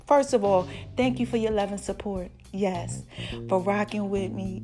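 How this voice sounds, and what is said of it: Excited, hyped-up voice. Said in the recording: “I know y'all can hear it in my voice. Like, I'm just so hyped.”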